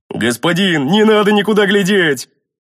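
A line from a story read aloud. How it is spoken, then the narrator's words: Worried booming big man. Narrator (Russian): обеспокоенно прогудел здоровяк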